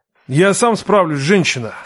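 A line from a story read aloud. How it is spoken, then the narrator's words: Grumbling man. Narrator (Russian): проворчал он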